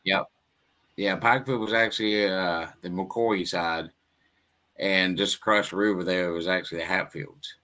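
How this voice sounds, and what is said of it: Interesting Kentucky accent. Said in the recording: “your accent seems to be pretty interesting, sir ... I'm originally from a small town called Pikeville, Kentucky.”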